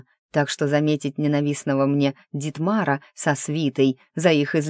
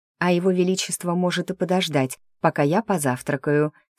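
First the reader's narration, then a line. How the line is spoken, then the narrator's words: Calm. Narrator (Russian): сказала спокойно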